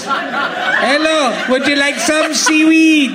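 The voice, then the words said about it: Put-on Welsh accent. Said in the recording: “I am from Wales. ... It's pitch perfect.”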